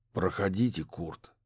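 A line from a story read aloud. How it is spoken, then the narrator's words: Heavy sigh. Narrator (Russian): тяжело вздохнул детектив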